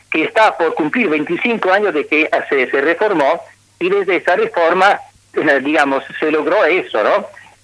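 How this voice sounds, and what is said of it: Spanish with a strong Italian accent. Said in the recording (Spanish): “su acento italiano está todavía firme”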